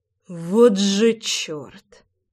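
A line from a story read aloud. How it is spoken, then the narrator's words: Breathless exhale. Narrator (Russian): Выдохнул я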